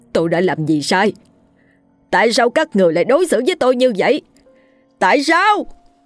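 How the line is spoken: Loud anguished shout. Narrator (Vietnamese): anh thét lớn

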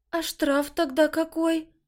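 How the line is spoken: Stunned, strained. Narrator (Russian): Только и смогла выдавить девушка

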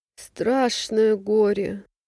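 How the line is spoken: Sobbing. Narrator (Russian): всхлипывает Агафья

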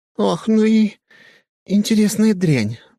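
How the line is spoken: Breathy exhale. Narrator (Russian): выдохнула она

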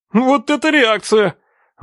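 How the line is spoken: Exclaiming. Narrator (Russian): воскликнул Саня

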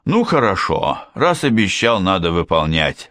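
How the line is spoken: Sighing father. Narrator (Russian): вздохнул папа

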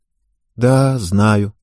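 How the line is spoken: Sad agreement. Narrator (Russian): грустно согласилась Ева

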